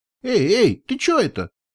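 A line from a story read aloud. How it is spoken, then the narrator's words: Startled squeak. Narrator (Russian): пискнул он, когда я приблизилась вплотную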